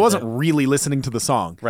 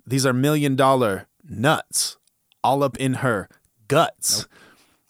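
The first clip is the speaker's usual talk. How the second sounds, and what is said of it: Imitates a rapper's cadence. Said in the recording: “I'm gonna just read these, but in the cadence where he raps them ... in your best Juicy J voice.”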